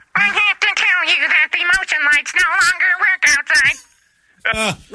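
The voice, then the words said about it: Robotic character voice. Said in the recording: “So I've got a robot voice ... He's always trying to make my robot voice go away.”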